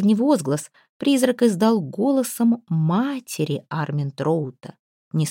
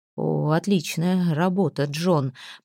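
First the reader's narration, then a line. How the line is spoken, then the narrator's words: Stuttering, spluttering mutter. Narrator (Russian): пробормотал, заикаясь, Армин Троуд, брызгая слюной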